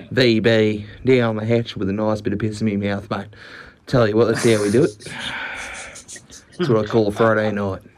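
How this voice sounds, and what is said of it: Convincing put-on Australian accent. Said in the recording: “that was a great Australian accent.”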